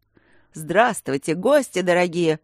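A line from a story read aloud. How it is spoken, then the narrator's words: Loud speech. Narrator (Russian): сказал громко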